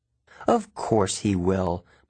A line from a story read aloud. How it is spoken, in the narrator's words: my mom said evenly